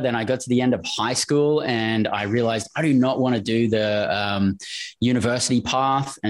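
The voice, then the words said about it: Australian accent. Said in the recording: “we can tell from your accent you're not from Kansas City”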